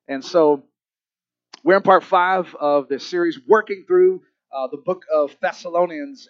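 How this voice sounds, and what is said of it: Cracking, congested voice. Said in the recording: “I'm dealing with some puberty issues here. My voice keeps cracking ... The weather changes is hitting my throat and sinuses”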